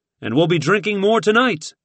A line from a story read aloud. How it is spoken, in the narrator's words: blurted